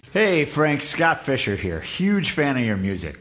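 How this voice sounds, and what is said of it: Funny voice. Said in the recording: “another person with a funny voice”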